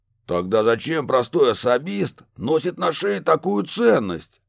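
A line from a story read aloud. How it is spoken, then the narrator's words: Snapping retort. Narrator (Russian): Огрызнулись из темноты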